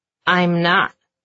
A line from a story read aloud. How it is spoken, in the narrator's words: he snaps back